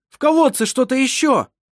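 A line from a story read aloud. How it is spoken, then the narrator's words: Shouted. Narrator (Russian): прокричал Вассар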